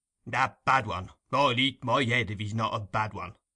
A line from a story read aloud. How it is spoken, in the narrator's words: growled Mr